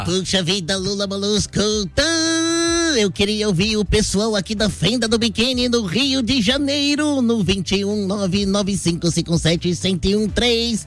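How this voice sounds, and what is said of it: SpongeBob cartoon character voice. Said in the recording (Portuguese): “na voz do Bob Esponja”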